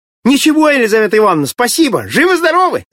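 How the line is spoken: Shouting. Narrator (Russian): закричал Володька

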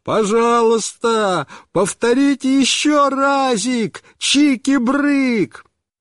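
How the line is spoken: Delighted shouting at full voice. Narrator (Russian): Он весь рассиялся от удовольствия и снова закричал папе во все горло

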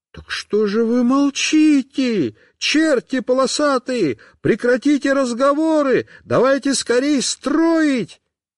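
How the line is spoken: Outright shouting. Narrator (Russian): Костик прямо закричал

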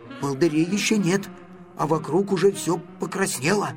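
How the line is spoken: Whisper. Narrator (Russian): шепотом сказал Гриша

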